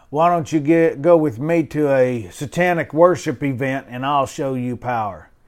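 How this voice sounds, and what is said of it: Deep voice imitating a big man. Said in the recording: “big old boy, probably six six ... deep voice”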